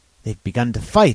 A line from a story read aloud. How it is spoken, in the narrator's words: I cried